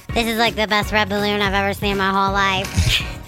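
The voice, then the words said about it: High-pitched squeaky cartoonish voice. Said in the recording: “It sounds better. ... It sounds like your daughter. ... I sound like a smurf.”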